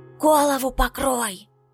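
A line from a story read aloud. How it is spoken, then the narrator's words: Loud whisper. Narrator (Russian): посоветовал кто-то громким шепотом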